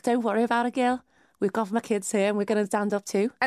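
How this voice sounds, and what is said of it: Good put-on Liverpool accent. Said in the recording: “that was a very good Liverpool accent”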